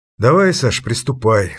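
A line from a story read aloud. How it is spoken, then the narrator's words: Sigh. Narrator (Russian): вздохнул Хельмут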